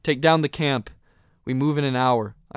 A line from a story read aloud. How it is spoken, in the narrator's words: called out